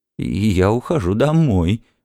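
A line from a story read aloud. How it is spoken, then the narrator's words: Trembling voice. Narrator (Russian): дрожащим голосом промолвила миссис Бауэлс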